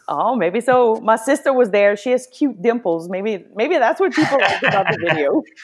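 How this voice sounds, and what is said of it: Cajun Louisiana accent. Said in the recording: “he loves your accent ... I could just sit there and listen to her accent all day long ... Maybe you just got to get more Cajuns on”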